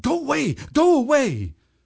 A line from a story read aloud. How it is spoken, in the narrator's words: shouted